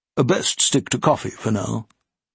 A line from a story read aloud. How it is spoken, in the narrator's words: Moyle surprised both when he said in a serious tone